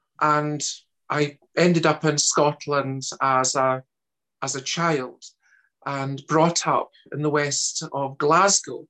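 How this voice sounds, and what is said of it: Scottish accent. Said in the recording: “my accent being a Scottish one”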